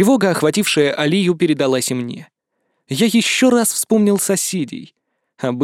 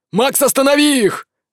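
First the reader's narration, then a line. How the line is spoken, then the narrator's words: Shouting father. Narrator (Russian): закричал отец Нур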